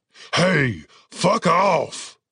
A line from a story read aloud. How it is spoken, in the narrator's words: Cooper barked